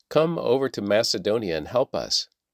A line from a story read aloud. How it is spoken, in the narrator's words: A man from Macedonia in northern Greece was standing there, pleading with them